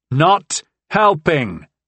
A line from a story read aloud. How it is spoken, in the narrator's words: shouted back at her